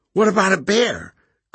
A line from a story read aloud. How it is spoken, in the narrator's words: Graham squeaked